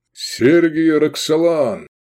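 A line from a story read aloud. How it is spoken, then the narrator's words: Loud. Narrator (Russian): громко назвался Лобанов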